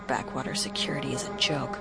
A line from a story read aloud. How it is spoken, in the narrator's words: Iden muttered